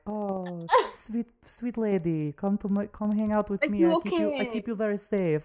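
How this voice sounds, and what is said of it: Put-on foreign accent. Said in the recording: “Oh no, what accent is this?”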